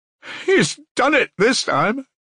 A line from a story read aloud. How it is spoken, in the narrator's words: Katerina Ivanovna cried despairingly